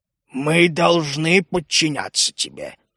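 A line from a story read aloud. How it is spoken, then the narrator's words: Muffled dark voice. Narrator (Russian): глухо произнес мрак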